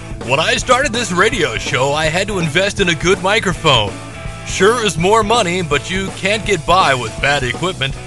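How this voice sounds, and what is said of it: Radio announcer voice. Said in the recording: “I need to put on my radio voice.”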